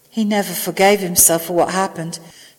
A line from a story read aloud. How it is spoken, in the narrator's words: Sam asked quietly under his breath